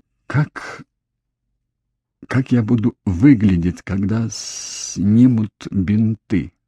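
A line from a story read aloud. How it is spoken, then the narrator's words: Stammering, fearful. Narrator (Russian): запинаясь, спросила Ив, боясь услышать ответ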